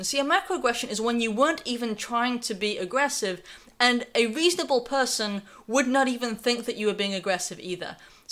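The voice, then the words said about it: Slight non-native accent. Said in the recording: “I have a bit of an accent”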